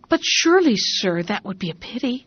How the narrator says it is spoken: The farm servants wondered at this order and exclaimed

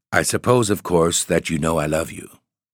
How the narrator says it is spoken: In a low voice, he said

